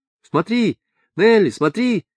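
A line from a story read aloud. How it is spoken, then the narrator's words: Several voices shouting over each other. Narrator (Russian): кричали наперебой 5 или 6 голосов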